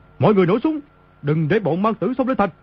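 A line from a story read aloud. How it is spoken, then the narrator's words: Panicked loud shout. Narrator (Vietnamese): Y trong lúc hoảng sợ quát lớn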